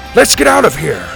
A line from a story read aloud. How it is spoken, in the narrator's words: Grandpa shouted